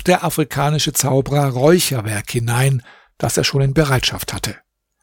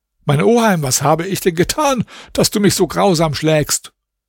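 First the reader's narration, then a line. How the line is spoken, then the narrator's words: Trembling tearful cry. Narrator (German): Zitternd und mit Tränen in den Augen rief der arme Alaeddin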